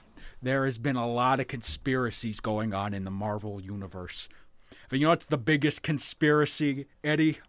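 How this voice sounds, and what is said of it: Jesse Ventura impression. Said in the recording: “I'm going to do my Jesse Ventura impression”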